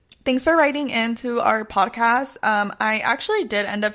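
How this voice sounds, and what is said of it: Polite customer service voice. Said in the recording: “should I do my customer service voice?”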